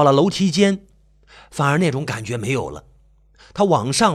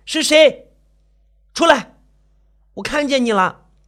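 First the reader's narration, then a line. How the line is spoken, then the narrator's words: Nervous, forced loud shout. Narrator (Chinese): 静茹壮着胆子 大喊了两声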